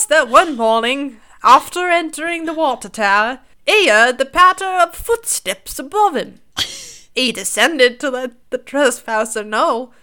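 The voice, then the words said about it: Put-on British accent drifting. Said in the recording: “break out into a fucking character ... Went from British to some weird accent.”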